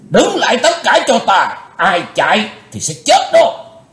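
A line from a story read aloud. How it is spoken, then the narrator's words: Loud shout. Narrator (Vietnamese): Lão cục tài quát lớn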